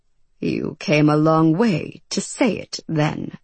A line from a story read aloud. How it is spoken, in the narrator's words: Marvel replied in a dry voice